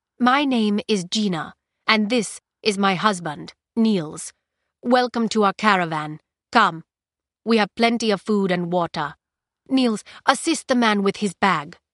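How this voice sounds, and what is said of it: Light foreign accent. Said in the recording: “with an accent not quite as heavy as the hunter's”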